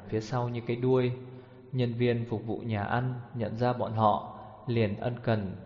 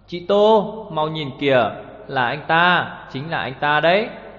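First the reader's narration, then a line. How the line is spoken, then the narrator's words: Low, excited, secretive. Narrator (Vietnamese): Lục Lộ làm ra vẻ bí hiểm, hạ thấp giọng hớn hở bảo rằng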